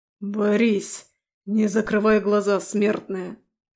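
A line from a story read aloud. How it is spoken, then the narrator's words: Demon growling. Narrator (Russian): рычал демон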